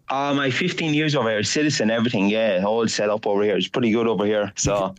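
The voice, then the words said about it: Mixed Australian and Irish accent. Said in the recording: “you're the strangest accent I've heard in a long time. Such a mix of an Australian accent and an Irish accent.”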